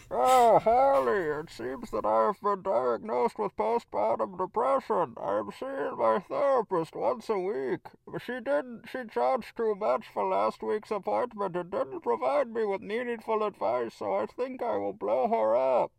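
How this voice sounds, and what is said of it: Bane character voice impression. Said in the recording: “talking like this ... doing that voice ... that's how Bane talks now ... the Bane voice”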